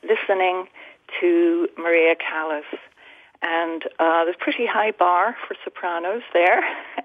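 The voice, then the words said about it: European accent. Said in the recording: “I grew up in Europe, as you may tell from my accent”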